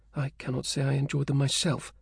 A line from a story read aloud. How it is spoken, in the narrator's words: she muttered